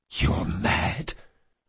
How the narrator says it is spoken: the assassin whispered

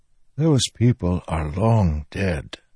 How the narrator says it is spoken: Taravangian whispered

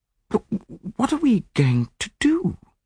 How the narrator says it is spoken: I asked uneasily

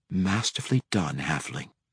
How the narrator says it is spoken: Cassius whispered into the night wind

